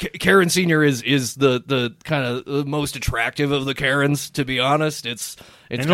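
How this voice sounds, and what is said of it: Usual voice. Nothing is said of it.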